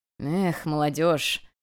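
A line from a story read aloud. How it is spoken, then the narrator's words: Inner chuckling thought, king. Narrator (Russian): хмыкнул мысленно король людей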